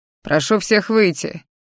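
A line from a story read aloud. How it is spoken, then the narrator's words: Deep bass voice. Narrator (Russian): пробасил, как я поняла, лекарь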